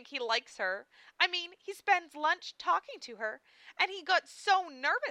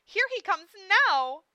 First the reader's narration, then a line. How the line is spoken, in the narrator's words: cried Amelia